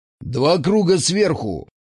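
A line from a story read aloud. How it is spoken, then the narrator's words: Menacing bark. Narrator (Russian): грозно гаркнул он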